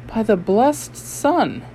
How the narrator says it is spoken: he exclaimed

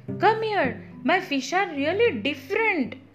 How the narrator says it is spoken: I yelled with excitement

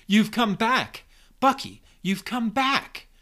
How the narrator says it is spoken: exclaims

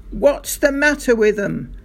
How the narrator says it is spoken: he shouted

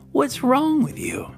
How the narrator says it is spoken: Sadie exclaimed

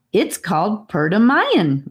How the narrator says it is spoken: Rivers laughed, pleased with the look of pleasure and awe on his guest's face

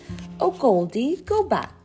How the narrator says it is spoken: cried all the toys

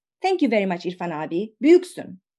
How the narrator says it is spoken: As she leaves the shop, the young woman exclaims

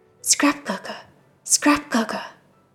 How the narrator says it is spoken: Goosey whispered again

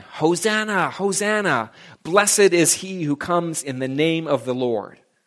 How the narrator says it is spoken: they are shouting and they are singing

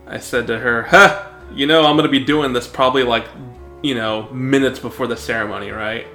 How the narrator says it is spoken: She laughed

